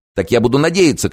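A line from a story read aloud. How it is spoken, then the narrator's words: Shout. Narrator (Russian): крикнул Теофильс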